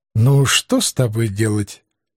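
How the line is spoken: Gentle, affectionate. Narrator (Russian): ласково покачал головой белый ангел

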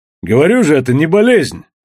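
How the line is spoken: Barking. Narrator (Russian): рявкнул Костоправ

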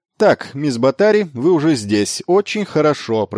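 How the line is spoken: Loud, feigned casual. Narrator (Russian): проговорил он громко, как будто только что подошел

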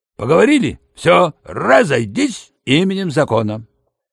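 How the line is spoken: Barked command. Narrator (Russian): гаркнул

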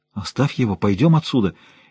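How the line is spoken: Frightened babbling. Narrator (Russian): испуганно пролепетал Лумис

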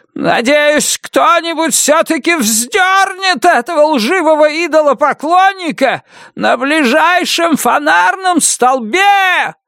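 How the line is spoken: Yelled in helpless rage. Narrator (Russian): завопил Уильям Роуз, в бессильной ярости

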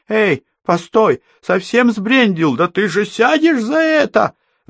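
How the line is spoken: Shrill squeal, bloody mouth. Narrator (Russian): взвизгнул хозяин машины, вытирая окровавленный рот

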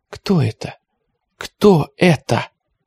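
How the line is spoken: Sobbing whisper. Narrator (Russian): Ника всхлипывала и шептала

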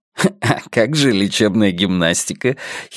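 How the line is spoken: Giggling. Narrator (Russian): хихикнул Йона

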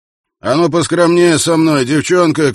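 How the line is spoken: Shouting. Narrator (Russian): крикнул он

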